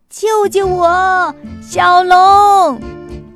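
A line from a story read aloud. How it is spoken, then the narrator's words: Dragon calling out. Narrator (Chinese): 一条白龙，喊着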